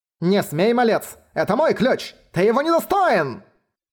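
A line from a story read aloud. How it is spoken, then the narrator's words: Screaming. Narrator (Russian): завопил лже-Далиан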